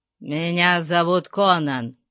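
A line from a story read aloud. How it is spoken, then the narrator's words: Growl. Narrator (Russian): прорычал кемериец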